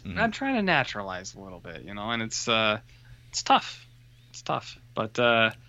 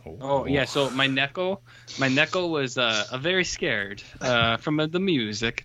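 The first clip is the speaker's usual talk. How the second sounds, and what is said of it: Put-on Japanese accent. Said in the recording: “That's also a Japanese accent.”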